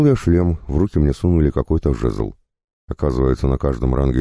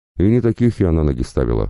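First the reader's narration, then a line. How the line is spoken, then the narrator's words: Healer's smirking grunt. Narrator (Russian): хмыкнула лекарша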